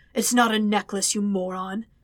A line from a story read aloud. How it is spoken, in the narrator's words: he growled